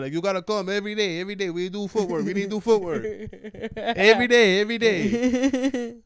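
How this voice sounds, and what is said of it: Imitated Cuban accent. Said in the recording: “What accent is that? ... He's from Cuba.”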